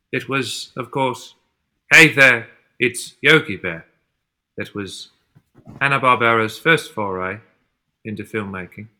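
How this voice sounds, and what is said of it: Cockney accent. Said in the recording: “My accent's gone Cockney. I didn't mean it to. ... Thank you, Michael Caine”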